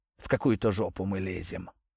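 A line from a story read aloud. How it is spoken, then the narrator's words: Mumbling. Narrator (Russian): пробормотал Овод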